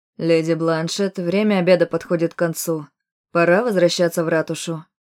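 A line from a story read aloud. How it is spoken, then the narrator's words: Firm commanding tone. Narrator (Russian): заявила он непререкаемым тоном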